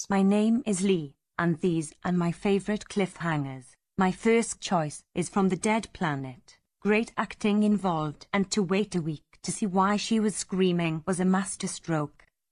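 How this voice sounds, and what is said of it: Squeaky voice, slightly Welsh accent. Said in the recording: “he'll probably sound a little squeaky ... it's almost like he sounds a bit Welsh.”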